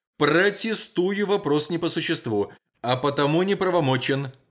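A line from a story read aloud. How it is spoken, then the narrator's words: Prosecutor shouting from seat. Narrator (Russian): выкрикнул со своего места прокурор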